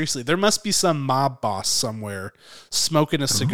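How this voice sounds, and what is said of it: Usual voice. Nothing is said of it.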